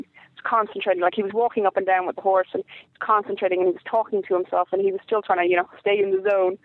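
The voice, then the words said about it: Irish accent. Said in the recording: “he was being Irish and everything... I couldn't tell by your accent... It only gives it away a little bit... your accent comes out a little bit more the more excited you get”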